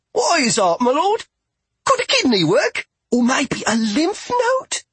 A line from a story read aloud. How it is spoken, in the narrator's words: Toby barely stopped himself from spluttering